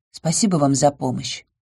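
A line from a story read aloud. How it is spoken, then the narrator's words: Quiet. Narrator (Russian): тихо сказала я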